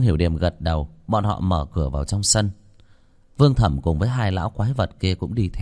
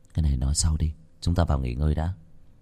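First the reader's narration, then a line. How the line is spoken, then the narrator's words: Soft interruption. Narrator (Vietnamese): Lô Tiểu Bắc cắt lời, khẽ nói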